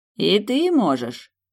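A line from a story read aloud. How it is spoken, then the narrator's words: Mocking demon. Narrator (Russian): насмешливо произнес демон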